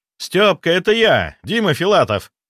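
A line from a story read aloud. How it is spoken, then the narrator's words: Father shouting. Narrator (Russian): прокричал отец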